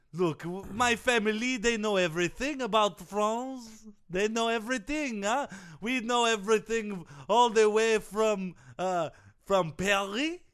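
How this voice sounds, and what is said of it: Put-on Russian-French accent. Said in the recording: “I feel like you have a Russian, French accent going on.”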